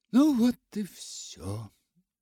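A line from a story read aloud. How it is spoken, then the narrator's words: Sigh. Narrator (Russian): вздохнула она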